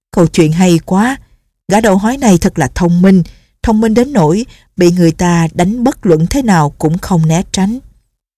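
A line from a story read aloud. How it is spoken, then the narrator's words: Laughing loudly, praising. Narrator (Vietnamese): Lệnh Hồ Xung cười to lên rồi khen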